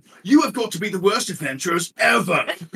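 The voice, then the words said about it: Put-on British accent, poorly done. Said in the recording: “The one with the British accent's like ... Bad Simon impression.”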